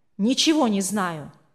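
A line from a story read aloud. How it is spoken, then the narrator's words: Irritated. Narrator (Russian): раздраженно ответил тот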